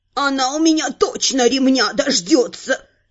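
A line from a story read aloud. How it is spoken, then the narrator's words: Dejected mutter. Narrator (Russian): сокрушенно пробормотал Абрахас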